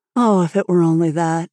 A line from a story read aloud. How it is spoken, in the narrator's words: sighed Anne